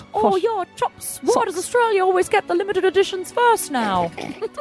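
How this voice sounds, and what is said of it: Put-on New Zealand accent. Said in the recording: “You do the accent... I can't do it... a word gets you into the accent”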